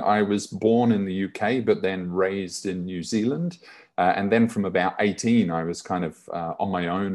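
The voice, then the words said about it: Slight accent. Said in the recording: “With a little bit of an accent too”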